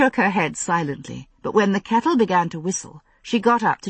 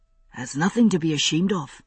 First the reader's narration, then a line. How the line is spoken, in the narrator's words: he said softly